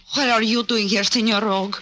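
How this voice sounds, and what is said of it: Put-on broken-English accent. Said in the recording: “you can drop that broken-down accent.”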